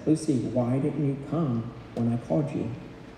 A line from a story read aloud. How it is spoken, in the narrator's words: he rebukes her gently